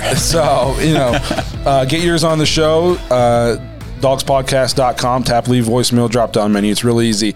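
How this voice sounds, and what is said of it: Voice of someone recovering from illness. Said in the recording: “I'm a little bit on the mend, if you guys can't tell in the voice ... if I start wheezing or coughing”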